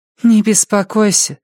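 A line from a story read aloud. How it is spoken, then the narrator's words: Sigh. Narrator (Russian): вздохнула Хильда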